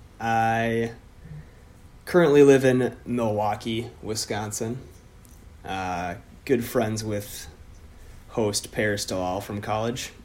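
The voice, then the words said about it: Deep Minnesota accent. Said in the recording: “I can hear the Minnesota accent... I do have a deep Minnesota accent”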